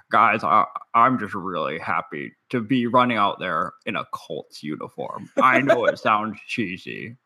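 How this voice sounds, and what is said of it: Imitates another person's voice. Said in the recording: “That was my Andrew Luck impression.”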